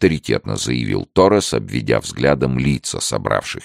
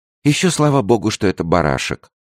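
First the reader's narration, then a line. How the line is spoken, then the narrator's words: Relieved sigh. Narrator (Russian): облегченно вздохнула Леонсия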